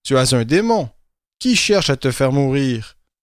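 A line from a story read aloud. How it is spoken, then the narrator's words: Plain. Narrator (French): Jésus leur répondit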